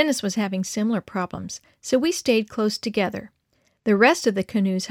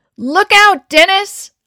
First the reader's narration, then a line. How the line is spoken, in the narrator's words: his mother scream